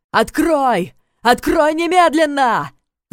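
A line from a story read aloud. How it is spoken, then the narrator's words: Man yelling. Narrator (Russian): заорал мужчина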